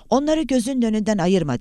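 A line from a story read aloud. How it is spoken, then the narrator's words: Shouting. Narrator (Turkish): diye bağırdı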